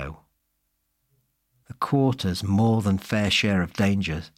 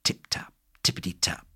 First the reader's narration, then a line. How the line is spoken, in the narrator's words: whispered the rain